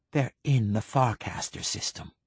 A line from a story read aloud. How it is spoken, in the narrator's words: whispered